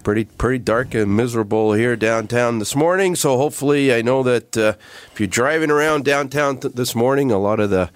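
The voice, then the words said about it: Raspy, slightly hoarse voice. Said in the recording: “Voice a little raspy this morning ... fighting off a little head cold”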